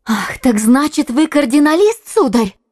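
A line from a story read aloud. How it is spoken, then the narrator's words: Exclaiming. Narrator (Russian): воскликнула она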